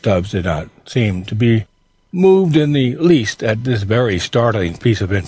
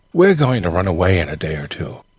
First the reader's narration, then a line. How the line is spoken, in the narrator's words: said, in a solemn tone